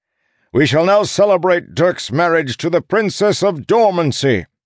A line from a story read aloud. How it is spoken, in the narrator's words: the Duke shouted